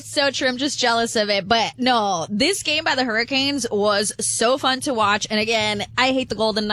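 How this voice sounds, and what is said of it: Usual voice. Nothing is said of it.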